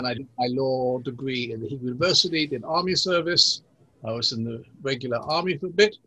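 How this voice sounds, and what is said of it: English accent. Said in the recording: “you have a British accent ... I've been trying to get rid of the English accent for many, many years ... I speak Hebrew with an English accent, and an Englishman will say I speak English with a Hebrew accent”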